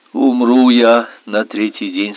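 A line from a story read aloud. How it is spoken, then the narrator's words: Plain. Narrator (Russian): сказала она Всеславе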